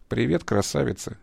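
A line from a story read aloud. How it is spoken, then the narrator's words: Quiet. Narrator (Russian): тихо проговорил подполковник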